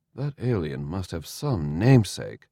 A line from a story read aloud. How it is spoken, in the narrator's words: Jesri muttered